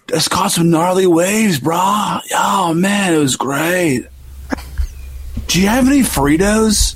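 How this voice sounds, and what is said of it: California stoner surfer voice. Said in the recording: “Here's a preview of California. ... Now that's a stoner voice, right? ... I was going for that stoner voice”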